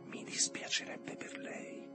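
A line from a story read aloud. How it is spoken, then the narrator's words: Whisper. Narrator (Italian): La voce dietro di lui sussurrò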